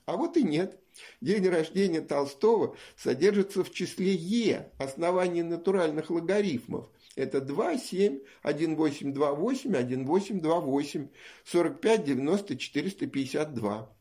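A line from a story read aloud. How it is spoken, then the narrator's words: Glad exclamation, father. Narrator (Russian): папы, который совсем не удивился, а скорее обрадовался и воскликнул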